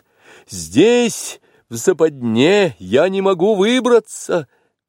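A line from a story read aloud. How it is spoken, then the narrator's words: Shout. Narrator (Russian): крикнул Маугли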